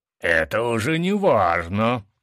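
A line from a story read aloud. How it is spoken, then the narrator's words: Growling with battle excitement. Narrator (Russian): прорычал, чувствуя, как боевой азарт захлестывает меня с головой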